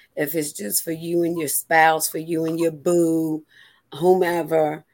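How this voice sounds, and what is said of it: Hoarse, fading voice. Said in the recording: “I'm losing my voice, so please forgive me. I was in this rain this morning.”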